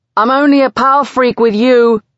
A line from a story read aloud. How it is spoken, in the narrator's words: he yells at my back